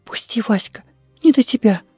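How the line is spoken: Girl's whisper. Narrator (Russian): шепнула девочка

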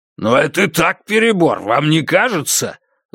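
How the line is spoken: Angry exclamation. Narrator (Russian): зло воскликнул Грант

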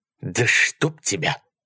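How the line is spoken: Mumbled. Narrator (Russian): пробормотал он

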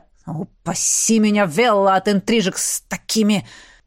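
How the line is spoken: Growled. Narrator (Russian): рыкнул Роналд Дарри

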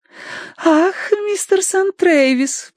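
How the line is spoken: Cooing. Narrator (Russian): проворковала она

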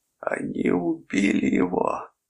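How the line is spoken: Sobbing. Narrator (Russian): рыдал Торн

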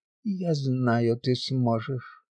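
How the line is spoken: Barely audible whisper. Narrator (Russian): Едва слышно прошептала знахарка

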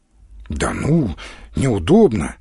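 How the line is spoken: Uncertain. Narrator (Russian): неуверенно проговорил Галкин

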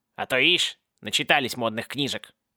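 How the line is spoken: Grumbling. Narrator (Russian): пробурчал колпак

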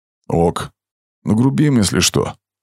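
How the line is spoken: Quiet reply. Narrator (Russian): тихо ответил американец

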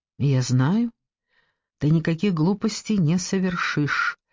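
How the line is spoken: Fairly calm. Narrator (Russian): сказал Ромер довольно спокойно

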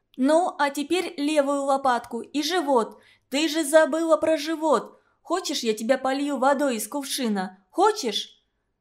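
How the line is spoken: Loud commanding. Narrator (Russian): А я громко командовала

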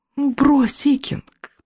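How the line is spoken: Cooing witch. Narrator (Russian): проворковала колдунья

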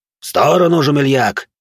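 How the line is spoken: Barking. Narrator (Russian): рявкнул на него Рошфор

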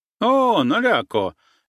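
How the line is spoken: Cheerful shout. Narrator (Russian): весело крикнул Йенко

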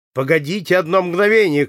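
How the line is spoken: Shout. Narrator (Russian): крикнул Ромен

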